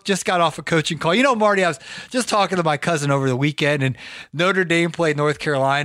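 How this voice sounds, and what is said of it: Strained, fading voice. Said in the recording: “I am going to try my best here. I've been losing my voice.”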